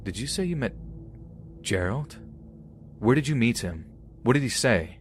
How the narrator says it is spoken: Feeling panicked by his reaction, I'm stuttering

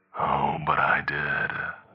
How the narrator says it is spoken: the creature hissed

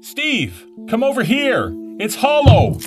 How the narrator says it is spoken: I shouted

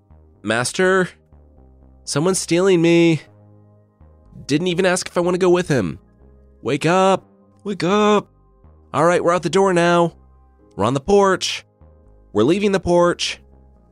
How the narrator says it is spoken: she yelled out

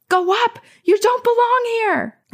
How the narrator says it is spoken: My heart was pounding, I yelled out

